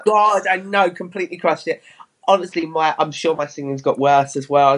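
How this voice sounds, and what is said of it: Crackly voice from a cold. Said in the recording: “it's even worse when you got a cold ... I've got a cold, so it's all crackly.”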